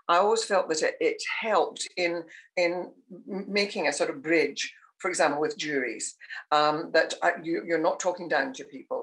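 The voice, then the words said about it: Scottish accent. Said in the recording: “I've never, ever tried to lose my Scottish accent.”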